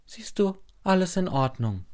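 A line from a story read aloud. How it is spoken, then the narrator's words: Plain. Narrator (German): sagt meine Mutter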